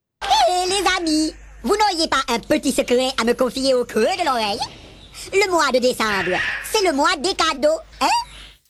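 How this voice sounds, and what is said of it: High sped-up voice, strong Mauritian accent. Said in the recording (French): “la vitesse de défilement de la voix qui était augmentée pour la rendre plus aiguë ... un accent mauricien prononcé”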